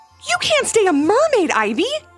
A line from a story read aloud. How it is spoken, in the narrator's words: exclaimed her mom